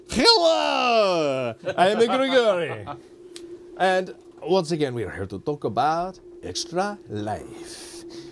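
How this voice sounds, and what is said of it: Put-on character accent. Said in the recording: “That was the wrong accent. That was a different accent.”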